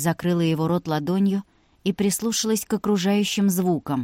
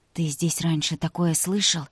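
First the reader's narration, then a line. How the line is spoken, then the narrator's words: Frightened whispered question. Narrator (Russian): шепотом спросила Вика, стараясь скрыть свой испуг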